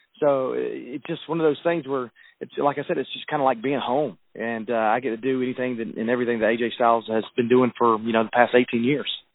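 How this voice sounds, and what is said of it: Southern American accent. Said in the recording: “as a Southerner ... I don't have to worry about my accent. People can totally understand what I'm saying from Alabama.”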